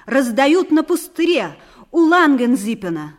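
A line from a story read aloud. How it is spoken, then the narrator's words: Loud. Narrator (Russian): Тимофей Карпыч громко сказал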